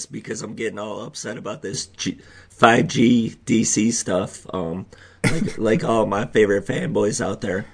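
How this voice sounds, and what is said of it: Hoarse, strained voice. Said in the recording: “Did you guys hear that? ... I'm losing my voice”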